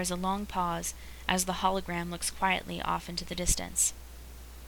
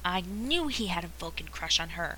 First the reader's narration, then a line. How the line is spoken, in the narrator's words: hisses Jim